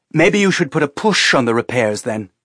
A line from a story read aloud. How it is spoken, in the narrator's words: Teresa said harshly